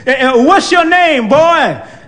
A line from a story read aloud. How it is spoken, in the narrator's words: She shouted from somewhere